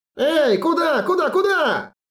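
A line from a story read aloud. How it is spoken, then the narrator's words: Shouted. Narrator (Russian): закричал Чили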